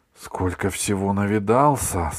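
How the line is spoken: Trembling voice. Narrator (Russian): сказал дрогнувшим голосом Иванушка

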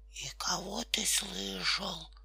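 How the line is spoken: Bear cub's whispered question. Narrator (Russian): шепотом спросил медвежонок

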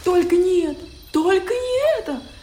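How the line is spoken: Screeching. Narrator (Russian): завопила обезьяна

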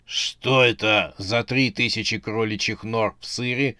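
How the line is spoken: Muttering. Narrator (Russian): пробормотал он

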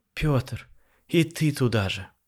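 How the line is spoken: Weary sigh. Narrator (Russian): устало вздохнула женщина

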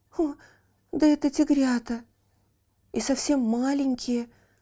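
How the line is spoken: Exclaiming. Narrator (Russian): воскликнул он

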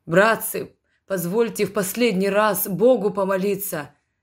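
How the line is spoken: Moaning martyr. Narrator (Russian): простонал мученик

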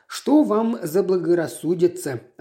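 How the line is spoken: Plain. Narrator (Russian): ответил мистер Грик

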